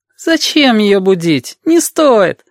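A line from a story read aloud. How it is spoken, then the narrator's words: Groaning voices. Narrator (Russian): Застонали голоса у экрана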